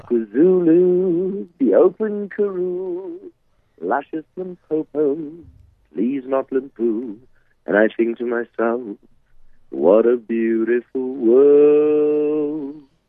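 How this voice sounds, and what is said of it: Put-on Australian accent, singing. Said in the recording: “my Australian accent”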